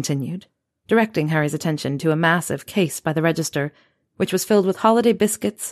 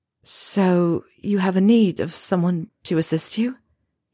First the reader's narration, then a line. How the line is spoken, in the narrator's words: he asked, his voice trembling